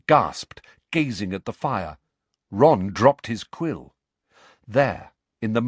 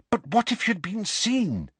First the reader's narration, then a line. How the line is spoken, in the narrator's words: said Hermione anxiously